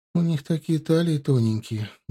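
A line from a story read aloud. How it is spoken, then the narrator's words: Sad. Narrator (Russian): грустно говорила она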